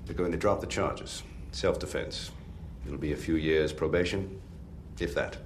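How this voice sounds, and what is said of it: Bad upper-crust British accent, Jeremy Irons-like. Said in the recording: “in his very bad accent. ... He's almost trying to do a Jeremy Irons a little bit. Mm-hmm. Very upper crusty sounding British guy. ... It's not good.”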